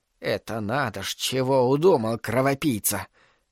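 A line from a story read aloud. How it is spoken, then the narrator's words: Quiet. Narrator (Russian): тихо проговорила Агнешка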